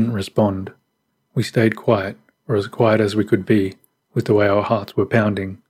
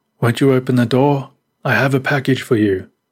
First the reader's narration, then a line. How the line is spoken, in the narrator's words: Then the man called out